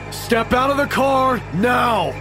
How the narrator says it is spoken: the cop yelled

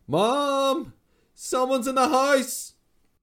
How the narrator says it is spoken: screamed

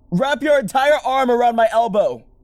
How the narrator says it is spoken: I shouted

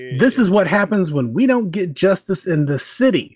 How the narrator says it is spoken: she screamed

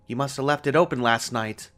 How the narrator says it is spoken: she snapped

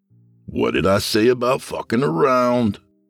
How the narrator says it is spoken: The would-be hero croaked

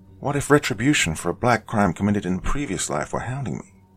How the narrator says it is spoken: he muttered

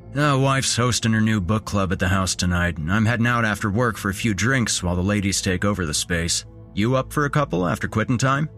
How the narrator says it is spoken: Teddy asked

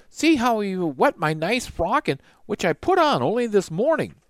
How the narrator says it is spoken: she cried

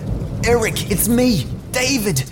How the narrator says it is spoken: I yelled, but the thunder drowned at my voice

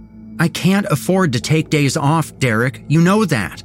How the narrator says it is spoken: she snapped again

